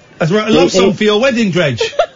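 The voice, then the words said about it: Comedic put-on South Asian accent. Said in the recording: “can you stop doing the comedy Jamaican accent? ... it wasn't meant to be Jamaican, it was meant to be Pakistani”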